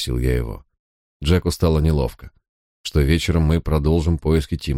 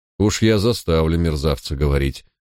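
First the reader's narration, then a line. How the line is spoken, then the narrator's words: Cold promise. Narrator (Russian): холодно пообещал Барк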